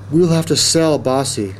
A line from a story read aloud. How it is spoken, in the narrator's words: Jackie said sadly